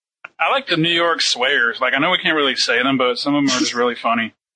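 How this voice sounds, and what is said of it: Regional accent. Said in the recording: “Don't make fun of my accent.”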